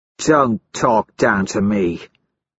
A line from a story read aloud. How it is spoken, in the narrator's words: Severo sneers